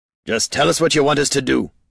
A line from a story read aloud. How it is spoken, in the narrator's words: Gorm snorted